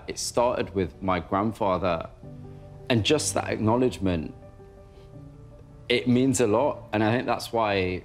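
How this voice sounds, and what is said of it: Emotional, choked-up voice. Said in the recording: “I'm a bit choked up.”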